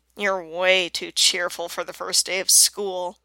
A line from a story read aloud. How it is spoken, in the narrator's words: Bellamy grumbles